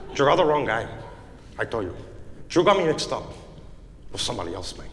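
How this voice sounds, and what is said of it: Al Pacino Scarface Spanish accent. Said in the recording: “English with a Spanish accent ... Hey, Al Pacino, Your Honor. It's Scarface.”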